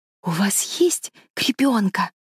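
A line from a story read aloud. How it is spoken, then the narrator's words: Whisper. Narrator (Russian): прошептала кузина Тереза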